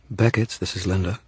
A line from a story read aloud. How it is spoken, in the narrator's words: she purred